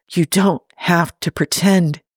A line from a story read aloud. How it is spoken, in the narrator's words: she whispers in his ear